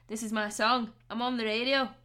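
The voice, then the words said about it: Put-on Scottish accent, fairly poor. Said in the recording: “I know that was a really bad accent ... it wasn't actually that bad ... Could have been worse ... Scottish”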